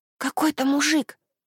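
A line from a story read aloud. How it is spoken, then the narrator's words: Whisper. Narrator (Russian): шепнула Аника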